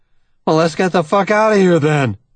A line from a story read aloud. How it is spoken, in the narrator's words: he blurts